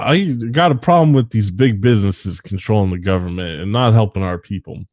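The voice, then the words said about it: Imitates another person's voice. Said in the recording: “here's my impression of Tucker Carlson's like populism”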